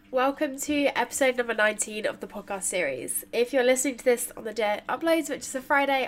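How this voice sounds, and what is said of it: Congested, nasal, blocked-nose voice. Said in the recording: “Hay fever has hit me hard this week, so apologies if within this intro I sound a little bit like I've got a peg over my nose and I'm trying to do an impression of a robot ... weird voice”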